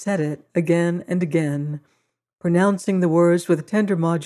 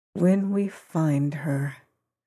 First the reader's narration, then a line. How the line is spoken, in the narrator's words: repeated the harvester softly and exultantly